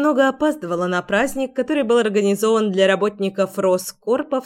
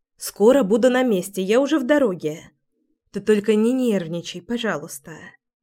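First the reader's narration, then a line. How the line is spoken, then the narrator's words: Conciliatory tone. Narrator (Russian): примирительным тоном сказала я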